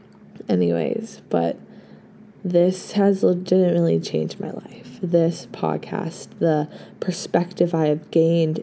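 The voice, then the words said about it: Slightly hoarse, rough voice. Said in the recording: “My voice is a little bit hoarse ... it's a little, it's a little rough”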